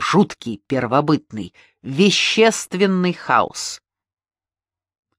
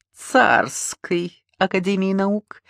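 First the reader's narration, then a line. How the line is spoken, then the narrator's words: Snide, smiling. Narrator (Russian): ехидно улыбался Линд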